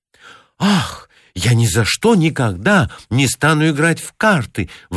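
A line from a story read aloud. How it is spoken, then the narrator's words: Exclaimed. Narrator (Russian): воскликнула Лили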